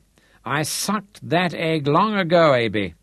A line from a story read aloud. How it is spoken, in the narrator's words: Santaine exclaimed irritably